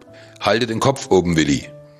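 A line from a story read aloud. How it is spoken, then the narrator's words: Shouting over wind. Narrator (German): rief Nanook über den Wind hinweg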